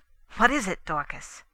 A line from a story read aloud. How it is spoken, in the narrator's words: I asked impatiently